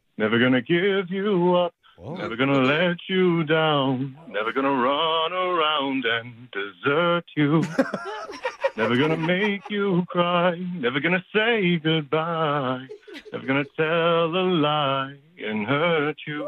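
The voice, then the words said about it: Sung imitation of another singer's voice. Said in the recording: “the Rick Astley impersonation”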